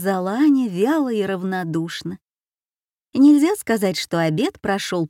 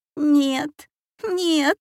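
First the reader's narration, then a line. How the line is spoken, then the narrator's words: Whimpered. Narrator (Russian): захныкал Дэви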